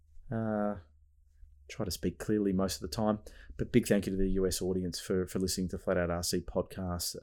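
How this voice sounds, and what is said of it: Australian accent. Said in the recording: “Hope you can understand my accent ... my homeland, Australia”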